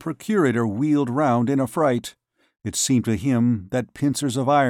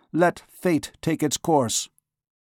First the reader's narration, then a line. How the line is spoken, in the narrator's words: he cried